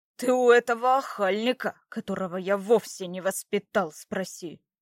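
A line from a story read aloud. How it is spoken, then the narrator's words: Growling. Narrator (Russian): прорычал Братмир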